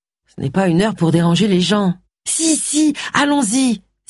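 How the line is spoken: Exclaiming. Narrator (French): s'écria Jake

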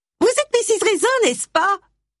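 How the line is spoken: Shrill question. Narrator (French): demanda-t-elle d'une voix stridente

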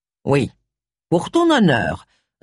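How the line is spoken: Quick reply. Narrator (French): répondit vivement

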